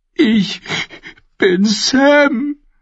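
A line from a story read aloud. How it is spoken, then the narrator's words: Sobbing creature. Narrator (German): schluchzte das schwarze Ding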